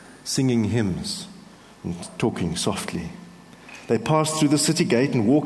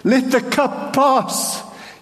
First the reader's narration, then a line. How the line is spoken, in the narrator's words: cried